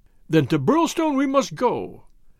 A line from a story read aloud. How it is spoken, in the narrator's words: cried MacDonald